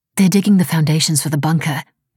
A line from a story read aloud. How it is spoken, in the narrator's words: Mira said